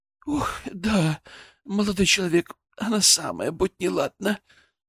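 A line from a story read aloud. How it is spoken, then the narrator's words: Sighing. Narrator (Russian): вздохнула баронесса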